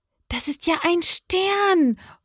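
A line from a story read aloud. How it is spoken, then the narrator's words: Exclaimed. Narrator (German): ruft Johanna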